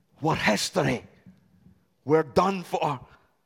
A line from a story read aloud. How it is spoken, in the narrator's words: Saul mutter under his breath